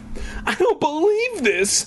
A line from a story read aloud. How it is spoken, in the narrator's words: Sherry wailed